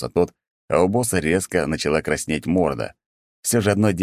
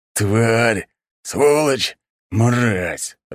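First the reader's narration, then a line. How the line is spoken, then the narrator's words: Growling through clenched teeth. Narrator (Russian): рычал, сжав зубы мужчина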